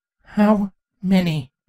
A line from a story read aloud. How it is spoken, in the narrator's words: Twilight shakily demanded to know